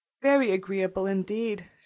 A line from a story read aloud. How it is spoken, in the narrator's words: she replied, vainly endeavoring to hide a great yawn